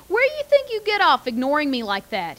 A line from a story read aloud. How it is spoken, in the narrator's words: he said, his voice astonishingly loud